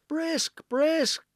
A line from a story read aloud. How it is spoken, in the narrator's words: the maidens cried